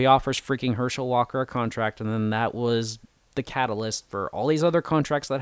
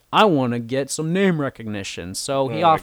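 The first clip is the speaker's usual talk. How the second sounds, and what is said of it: Put-on accent, done well. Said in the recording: “your accent was really good”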